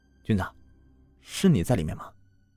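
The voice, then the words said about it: Quiet, hushed speaking. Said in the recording (Chinese): “小声的冲着垃圾箱说”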